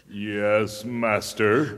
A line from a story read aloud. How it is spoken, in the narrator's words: growled the golem in a voice like faraway thunder